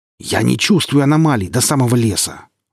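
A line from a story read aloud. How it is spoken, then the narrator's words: Growled reply. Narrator (Russian): рыкнул он в ответ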